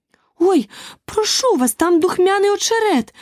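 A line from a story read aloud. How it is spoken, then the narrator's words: Sudden delighted exclamation. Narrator (Ukrainian): зненацька вигукнула захоплена Аліса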